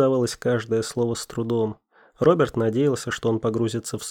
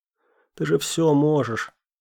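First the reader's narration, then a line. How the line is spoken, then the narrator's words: Straining groan. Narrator (Russian): простонал он, собираясь силами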